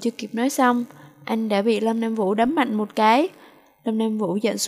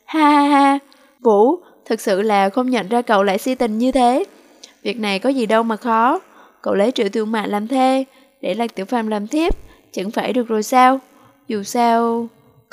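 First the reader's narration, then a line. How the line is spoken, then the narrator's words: Uncontrollable loud laughter. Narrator (Vietnamese): Bạch Hạo Uy không nhịn được cười lớn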